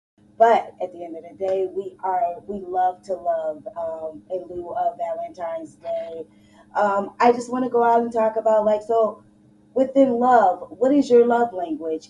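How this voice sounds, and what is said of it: Hoarse, strained voice. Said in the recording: “Excuse my voice. I lost my voice.”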